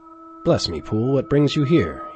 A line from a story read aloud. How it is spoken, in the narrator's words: he cried